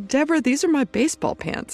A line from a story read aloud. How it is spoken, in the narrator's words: laughed, and he says